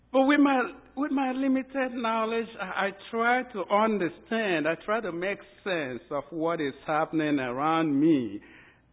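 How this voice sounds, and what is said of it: Nigerian English accent. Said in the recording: “I'm from a very local part of Nigeria in the west coast of Africa ... as you can tell by my accent.”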